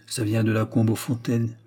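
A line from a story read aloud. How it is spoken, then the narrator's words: Murmured. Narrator (French): murmura le brigadier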